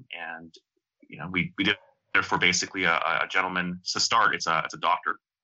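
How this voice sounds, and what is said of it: Canadian accent. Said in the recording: “I'm going to mispronounce this with my Canadian dialect”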